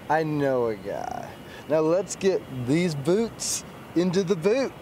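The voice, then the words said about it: Put-on accent. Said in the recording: “don't ever do that accent again”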